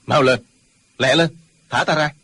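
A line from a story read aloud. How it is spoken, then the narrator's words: Resentful shout. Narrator (Vietnamese): Trương Du Kỵ hậm hực quát lên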